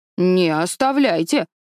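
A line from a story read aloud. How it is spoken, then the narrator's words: Stern. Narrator (Russian): строго сказал конопляный человек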